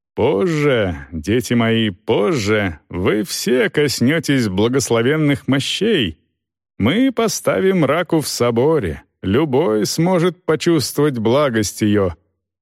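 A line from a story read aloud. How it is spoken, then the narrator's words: Loud. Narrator (Russian): громко говорил архиепископ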